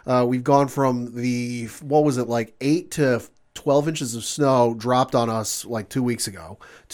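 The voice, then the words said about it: Voice sounds a little weird. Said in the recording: “my voice might sound a little weird throughout this recording ... allergies are kicking up”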